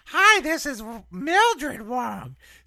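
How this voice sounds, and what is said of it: Slightly higher-pitched, flirtatious character voice. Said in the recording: “it's a little bit, it's a semitone higher ... See how I sound very flirtatious.”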